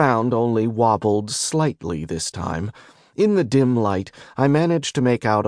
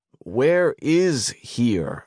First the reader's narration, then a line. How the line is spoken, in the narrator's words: I asked, getting unsteadily to my feet